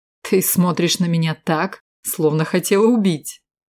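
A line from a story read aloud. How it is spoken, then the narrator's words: Laughing, embarrassed. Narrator (Russian): Вдруг, смеясь и покраснев, произнес он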